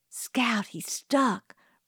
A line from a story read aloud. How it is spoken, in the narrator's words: breathed Jim